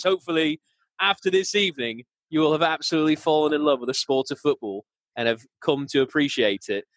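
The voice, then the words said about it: Put-on British accent, slightly Scottish. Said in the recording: “this terrible accent ... It's not terrible. It's actually right. It's on point ... Oh, a bit of Scottish there as well ... it's not like overly Scottish”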